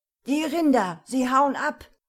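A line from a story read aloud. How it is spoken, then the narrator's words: Shout lost in thunder. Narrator (German): Chris' Antwort verhallte im nächsten Donner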